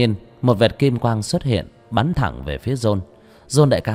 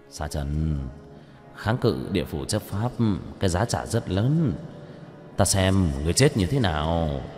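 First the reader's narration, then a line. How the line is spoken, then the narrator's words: Gleeful muttering. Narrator (Vietnamese): John đại ca hít sâu một hơi khoái chí, lẩm bẩm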